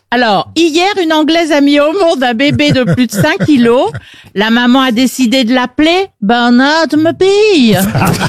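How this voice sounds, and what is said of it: Well-done put-on accent. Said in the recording (French): “Elle le fait bien, en plus... Très bon accent. Très bon accent.”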